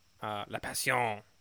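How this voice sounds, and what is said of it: Mock Spanish accent. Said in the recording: “I don't know why I'm saying it with a Spanish accent.”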